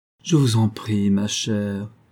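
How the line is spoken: Pitiful sigh. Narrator (French): soupira piteusement Gabriel

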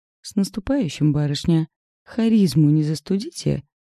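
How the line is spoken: Smirking. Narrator (Russian): Усмехнулся

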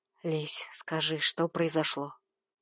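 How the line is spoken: Quiet request. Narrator (Russian): Попросил тихим голосом

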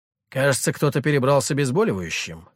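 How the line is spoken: Wry snort. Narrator (Russian): хмыкнул я

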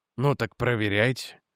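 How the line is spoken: Sighing. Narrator (Russian): вздохнул Реджи

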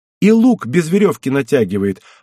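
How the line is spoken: Sudden exclamation. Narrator (Russian): воскликнула вдруг Егенка

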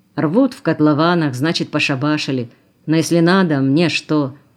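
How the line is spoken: Submissive grumble. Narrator (Russian): пробурчал покорно

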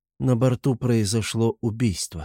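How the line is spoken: Surprisingly calm reply. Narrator (Russian): ответила она на удивление спокойно

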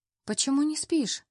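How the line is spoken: Gentle question. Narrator (Russian): Ласково спрашиваю

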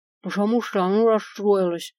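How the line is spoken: Mumbling with mouth full. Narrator (Russian): прошамкала с целым ртом острых шпилек

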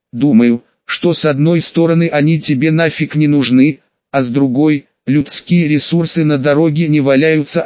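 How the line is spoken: Plain. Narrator (Russian): ответила Ночи

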